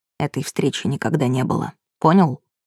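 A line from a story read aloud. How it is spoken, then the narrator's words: Hissed threat. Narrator (Russian): его подруга прошипела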